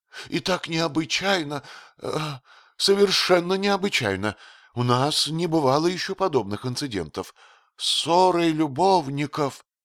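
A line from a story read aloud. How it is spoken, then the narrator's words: Mournful tone. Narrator (Russian): продолжал он скорбным тоном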